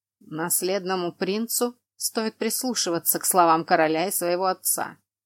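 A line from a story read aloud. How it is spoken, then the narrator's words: Harsh rebuke. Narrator (Russian): грубо осадил сына Тейрен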